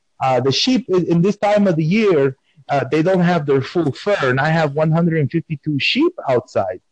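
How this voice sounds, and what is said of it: Speaks with a noticeable accent. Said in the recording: “Have you heard my type of accent? They say I have. ... they think that I'm doing accent, but this is just how I speak.”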